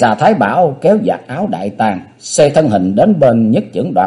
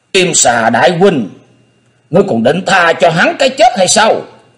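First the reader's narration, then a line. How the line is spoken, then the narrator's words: Shrieking. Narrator (Vietnamese): Kim xà thái bảo thét lên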